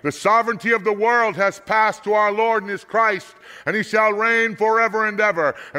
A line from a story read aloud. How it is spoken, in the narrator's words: there were voices heard in heaven shouting